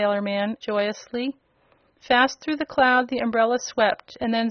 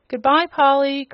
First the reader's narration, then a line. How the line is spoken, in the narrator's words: cried Button Bright